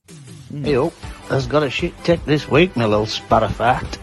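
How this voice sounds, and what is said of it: Funny regional accent. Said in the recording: “He's got such a fucking funny accent there.”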